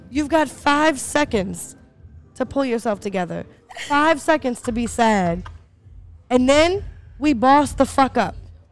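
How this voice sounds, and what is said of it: Impression of a friend's pep talk. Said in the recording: “best impression of me ... You have the best impression of Jason. Please do it. ... Sound a whole lot like one of my pep talks.”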